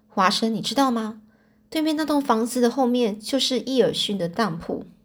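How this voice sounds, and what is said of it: Quiet, hushed speech. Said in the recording (Chinese): “小声的”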